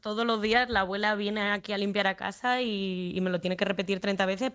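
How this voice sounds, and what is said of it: Spanish accent leaning toward Madrid. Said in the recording (Spanish): “el acento es un poco tirando de Madrid porque nací en Madrid, pero soy extremeña”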